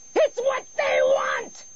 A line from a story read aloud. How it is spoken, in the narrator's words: she screamed back